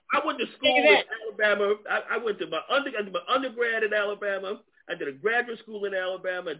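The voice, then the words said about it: New York accent. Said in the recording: “did you maintain your New York accent ... People tell me I still have a New York accent. ... You sound like from New York.”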